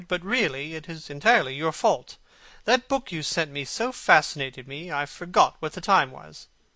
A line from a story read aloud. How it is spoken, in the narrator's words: he cried